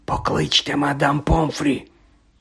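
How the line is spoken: Whisper. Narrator (Ukrainian): прошепотів Дамблдор

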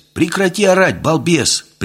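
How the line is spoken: Sharp shout. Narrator (Russian): прикрикнул я

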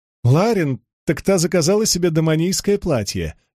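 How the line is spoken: Little girl laughing. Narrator (Russian): рассмеялась маленькая Дженнесси

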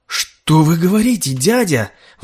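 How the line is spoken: Exclaiming. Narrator (Russian): воскликнул Готфри

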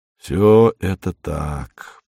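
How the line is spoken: Drawling. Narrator (Russian): протянул он

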